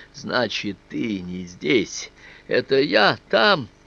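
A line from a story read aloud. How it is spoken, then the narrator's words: Joyful laughter. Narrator (Russian): Я рассмеялся от радости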